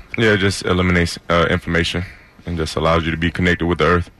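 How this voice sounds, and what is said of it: Southern American accent. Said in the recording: “The southern accent.”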